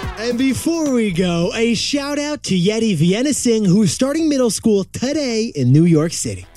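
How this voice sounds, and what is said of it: Usual voice. Nothing is said of it.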